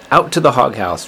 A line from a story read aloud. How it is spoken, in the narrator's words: replied Mrs